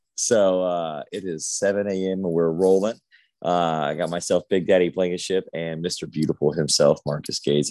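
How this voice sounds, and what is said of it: Just-woken-up morning voice. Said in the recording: “I got my sexy voice on today because I just woke up about 5 minutes ago.”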